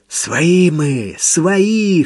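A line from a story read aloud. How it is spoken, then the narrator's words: Hoarse, coughing blood. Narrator (Russian): хрипел Митя, харкая кровью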